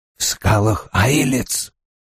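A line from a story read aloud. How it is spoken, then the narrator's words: Quiet. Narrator (Russian): тихо промолвил Одноглазый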